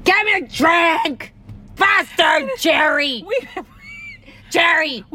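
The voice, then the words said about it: Yelling. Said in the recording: “I'm yelling at my boyfriend across the, like, at the bar.”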